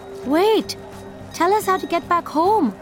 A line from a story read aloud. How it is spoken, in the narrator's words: Ayush pleaded